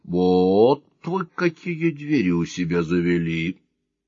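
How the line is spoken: Quiet. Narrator (Russian): Негромко сказал

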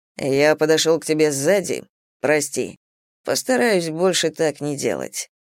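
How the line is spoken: Plain. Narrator (Russian): ответил Зейн

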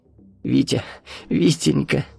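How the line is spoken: Sobbing. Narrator (Russian): прорыдала она

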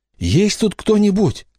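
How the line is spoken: Trembling question. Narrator (Russian): спросил дрожащим голосом

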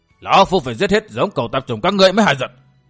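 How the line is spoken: Shouting. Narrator (Vietnamese): tiếng quát tháo của tà kiếm

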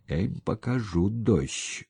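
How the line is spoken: Through clenched teeth. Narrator (Russian): сквозь зубы процедил Сапко

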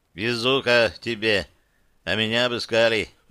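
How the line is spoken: Sighing young man. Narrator (Russian): вздохнул парень

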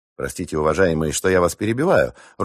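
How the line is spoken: Even, level voice. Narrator (Russian): ровным голосом произнесла Дана

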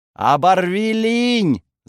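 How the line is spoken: Young man yelling. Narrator (Russian): завопил парень

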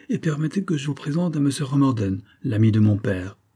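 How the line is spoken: Imperious tone. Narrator (French): ajouta-t-elle d'un ton impérieux

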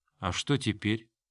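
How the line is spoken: Quiet, exhausted question. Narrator (Russian): Белона подняла измученное лицо и тихо спросила

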